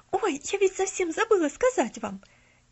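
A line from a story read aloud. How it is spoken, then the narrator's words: Embarrassed exclamation. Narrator (Russian): Неожиданно покраснев, воскликнула Полиана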